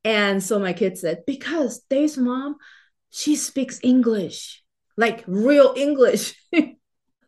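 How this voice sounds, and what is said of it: Speaks English with an accent. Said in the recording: “I had this accent, right? And my kids noticed. They were very little, but they noticed that I speak with an accent”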